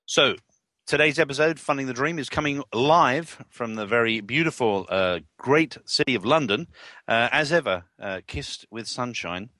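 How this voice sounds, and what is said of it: London accent. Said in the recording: “the London Whisperer ... The accent is real.”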